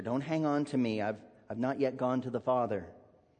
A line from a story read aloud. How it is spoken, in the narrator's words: Jesus gently admonishes her